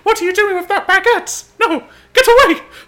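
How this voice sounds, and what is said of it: Mickey Mouse cartoon voice. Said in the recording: “my impression of Mickey Mouse”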